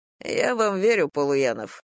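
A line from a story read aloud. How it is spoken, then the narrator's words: Skeptical grunt. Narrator (Russian): хмыкнул Савельев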